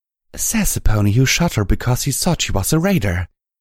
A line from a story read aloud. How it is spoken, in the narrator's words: Velvet Remedy whispered